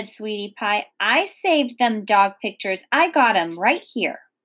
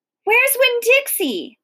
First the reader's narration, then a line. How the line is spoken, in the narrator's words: I shouted